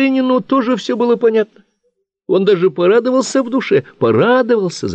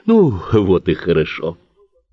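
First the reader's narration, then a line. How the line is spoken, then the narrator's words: Relieved sigh. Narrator (Russian): Вздохнул с облегчением Карасев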